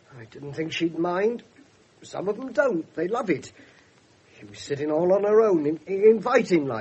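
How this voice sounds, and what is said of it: Usual voice. Nothing is said of it.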